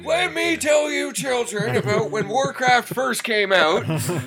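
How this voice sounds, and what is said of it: Weak old man voice. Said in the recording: “old man voice, ... You gotta do it better.”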